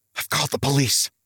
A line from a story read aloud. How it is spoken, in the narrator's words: he hissed